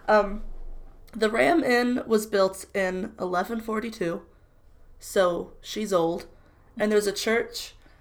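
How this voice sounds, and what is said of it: Strained voice recovering from voice loss. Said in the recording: “I was sick this week and I lost my voice and it recently came back... But I'm really pushing it, so this is why I sound like this”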